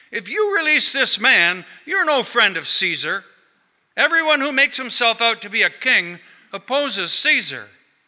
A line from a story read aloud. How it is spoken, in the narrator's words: the Jews cried out, saying